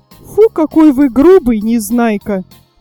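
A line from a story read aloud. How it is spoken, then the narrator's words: Exclaim. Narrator (Russian): воскликнула Снежинка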